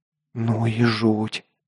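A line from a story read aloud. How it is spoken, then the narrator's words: Muttered. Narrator (Russian): пробормотала Катя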